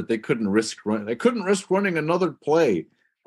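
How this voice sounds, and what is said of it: Al Michaels impression. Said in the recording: “It's a great impression. ... That's my Al Michaels.”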